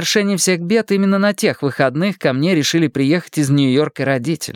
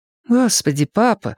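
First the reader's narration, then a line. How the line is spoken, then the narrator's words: Sigh. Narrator (Russian): вздохнула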